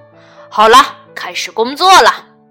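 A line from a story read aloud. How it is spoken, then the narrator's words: Loud. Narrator (Chinese): 驾驶员大声说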